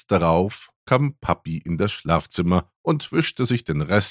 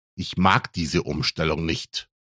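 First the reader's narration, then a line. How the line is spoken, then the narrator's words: Grumbling. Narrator (German): brummte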